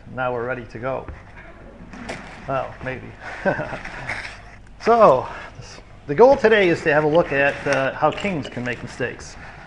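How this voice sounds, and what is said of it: American accent. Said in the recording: “used to the American accent”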